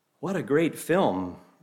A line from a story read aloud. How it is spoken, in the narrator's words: Bater exclaimed